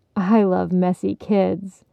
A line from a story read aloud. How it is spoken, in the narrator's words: Barney countered